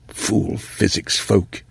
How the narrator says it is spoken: he muttered to Mariah

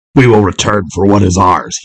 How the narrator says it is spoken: he snarled at her as he ran

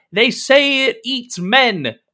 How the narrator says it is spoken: You hear someone shout

